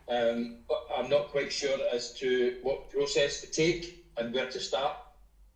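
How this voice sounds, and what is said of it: Scottish accent. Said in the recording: “your beautiful Scottish accent”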